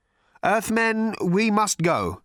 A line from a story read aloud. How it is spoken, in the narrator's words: said Slarty Bartfast nervously